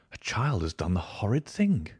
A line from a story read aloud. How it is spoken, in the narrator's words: I said in a whisper